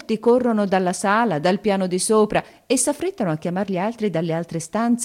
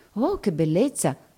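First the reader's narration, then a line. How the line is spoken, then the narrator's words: Many voices murmuring. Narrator (Italian): mormorano tutti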